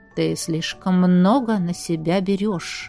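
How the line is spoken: Cold, flat voice. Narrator (Russian): наконец сказал он холодным, безэмоциональным голосом

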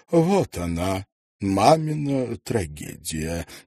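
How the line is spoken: Solemn announcement. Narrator (Russian): торжественно сообщила она

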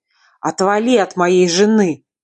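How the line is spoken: Loud growl. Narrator (Russian): рыкнул он так, что услышала не только я, но и наглый незнакомец

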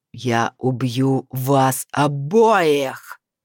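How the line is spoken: Dragon's roar. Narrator (Russian): взревел дракон

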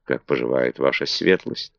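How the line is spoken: Humble whisper in ear. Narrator (Russian): Маргарет смиренно, шепнув на ухо

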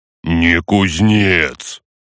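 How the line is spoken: Deep bass, orc. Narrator (Russian): пробасил орк

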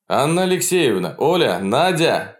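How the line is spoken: Calling out from boat. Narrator (Russian): кричал Полунин, стоя в лодке у окон первого этажа

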